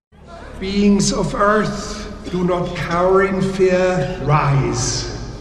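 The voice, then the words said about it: German accent. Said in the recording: “Why does it have a German accent?”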